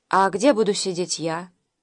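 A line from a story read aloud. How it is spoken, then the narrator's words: Timid question. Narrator (Russian): робко спросил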